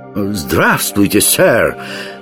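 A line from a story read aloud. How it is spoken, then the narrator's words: Hasty exclamation. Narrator (Russian): поспешно, чтобы Жихарь чего-нибудь не ляпнул, воскликнул Яртур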